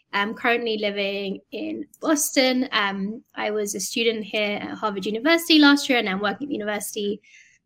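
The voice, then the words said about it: London English accent. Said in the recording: “As you can probably tell from the accent, I'm from London, UK.”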